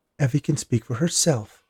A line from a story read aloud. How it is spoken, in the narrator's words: Martha said in her firm yet meek voice